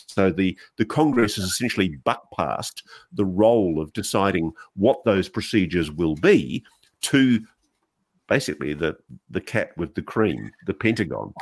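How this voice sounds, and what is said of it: Australian accent. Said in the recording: “hearing it with an Australian accent”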